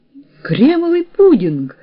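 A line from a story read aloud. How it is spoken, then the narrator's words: Exclaimed in chorus. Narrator (Russian): хором воскликнули Рон и Донни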